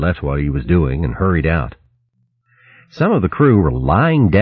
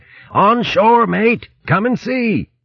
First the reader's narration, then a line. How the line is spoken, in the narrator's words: Berg shouted urgently from out on deck